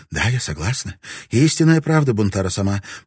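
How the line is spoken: Frightened babbling. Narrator (Russian): пролепетала она холодея, ибо знала, что ярость его не знает предела

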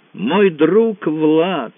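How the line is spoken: Exclaiming in perfect English. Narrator (Russian): воскликнул Франсуа на безукоризненном английском

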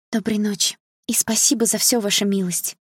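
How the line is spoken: Quiet. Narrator (Russian): тихо сказала она

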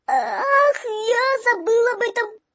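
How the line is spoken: Squeaky voice. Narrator (Russian): пропищал всякограб

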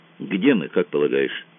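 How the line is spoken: Plain. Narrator (Russian): спросил Кацуба

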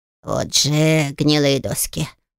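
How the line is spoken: Snorting. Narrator (Russian): фыркнул он

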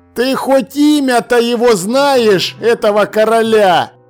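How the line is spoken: Roaring. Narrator (Russian): Проревел он

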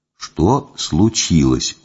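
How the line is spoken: Very quiet question. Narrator (Russian): очень тихо спросил я

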